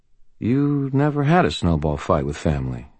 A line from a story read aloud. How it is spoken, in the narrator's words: said quietly